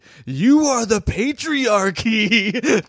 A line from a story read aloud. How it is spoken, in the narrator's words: she just starts yelling